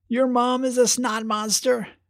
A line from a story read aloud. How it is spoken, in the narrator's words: yelled Vale